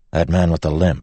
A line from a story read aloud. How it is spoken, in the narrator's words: Wax said